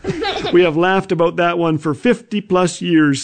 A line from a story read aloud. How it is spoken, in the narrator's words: says Jim